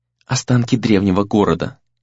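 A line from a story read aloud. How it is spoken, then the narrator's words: Quiet, hushed reply. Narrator (Russian): тихо ответила Нара, словно боясь спугнуть время, застывшее здесь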